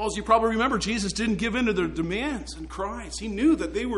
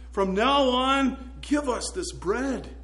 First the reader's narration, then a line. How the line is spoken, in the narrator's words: begged